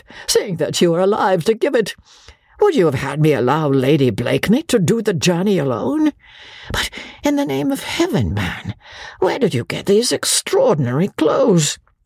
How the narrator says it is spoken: said Sir Andrew, with a merry laugh

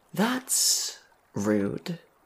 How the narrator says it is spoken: sighed the dead boy

